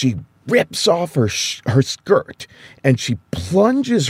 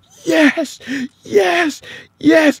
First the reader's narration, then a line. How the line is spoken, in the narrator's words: she's breathing like she's coming up from underwater, and she starts yelling